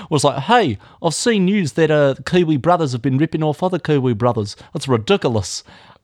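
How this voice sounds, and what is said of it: Put-on Kiwi accent. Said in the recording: “I won't do the accent. I'll do it.”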